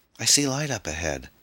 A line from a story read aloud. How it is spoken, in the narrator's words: the girl cried